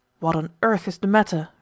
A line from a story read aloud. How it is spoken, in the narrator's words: retorted the master of the household testily